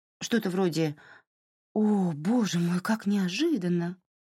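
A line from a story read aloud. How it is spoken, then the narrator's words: Higher, plaintive, softened voice. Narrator (Russian): Ее голос поднялся на октаву и жалобно смягчился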